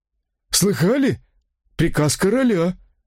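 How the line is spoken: Bewildered, breaking off. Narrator (Russian): растерянно произнес и осекся

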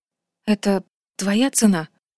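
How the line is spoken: Breathy. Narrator (Russian): выдохнула Асин

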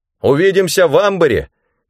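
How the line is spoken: Shouted. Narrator (Russian): крикнул Рэндом

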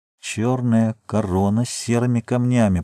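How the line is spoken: Muttered. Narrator (Russian): пробормотал он

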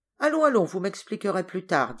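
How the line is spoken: Plain. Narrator (French): dit l'homme

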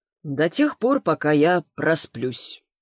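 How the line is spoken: Gloomy confirmation. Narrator (Russian): мрачно подтвердил Богатов

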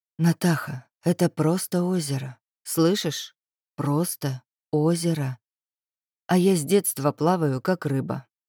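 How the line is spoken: Quiet. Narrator (Russian): тихо произнес

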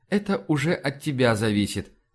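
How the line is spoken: Laughing. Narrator (Russian): засмеялся

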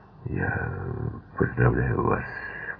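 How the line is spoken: Mumbled. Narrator (Russian): пробормотал Бонд

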